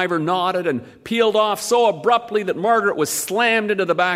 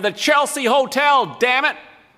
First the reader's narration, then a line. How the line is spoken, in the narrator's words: she yelled at the driver